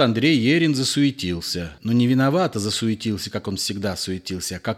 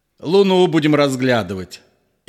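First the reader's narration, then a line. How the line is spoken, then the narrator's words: Loud laughter. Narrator (Russian): захохотал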